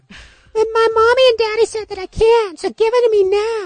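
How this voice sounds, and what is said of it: Put-on accent, demanding child's voice. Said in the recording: “my accent is better. ... It is getting better.”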